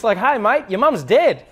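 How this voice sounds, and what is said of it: Upbeat Australian accent, rising intonation. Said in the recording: “you always sound happy because always, like, it doesn't matter what it is, but it always goes up and it's like really exciting ... an Australian”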